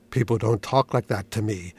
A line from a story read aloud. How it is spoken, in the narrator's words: said thickly